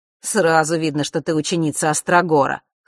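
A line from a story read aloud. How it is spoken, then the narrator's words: Amused grunt. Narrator (Russian): хмыкнул Маар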